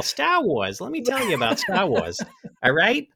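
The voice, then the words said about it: New England accent. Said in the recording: “this nobody dude from New England ... you guys are lucky I don't have the accent. I drop it on occasion”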